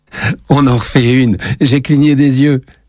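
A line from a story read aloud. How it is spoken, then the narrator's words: Exclamation. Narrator (French): s'exclame Lenny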